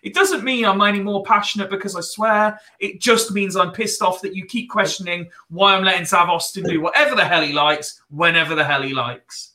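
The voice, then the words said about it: Mixed Wiltshire and East Midlands accent. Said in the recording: “half Wiltshire, half East Midlands accent”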